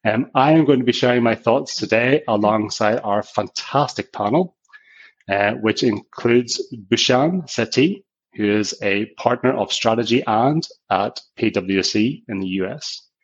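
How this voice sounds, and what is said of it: Strong Northern Irish accent. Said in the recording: “I have a strong Northern Irish accent.”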